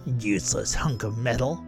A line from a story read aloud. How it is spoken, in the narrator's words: grumbled the feller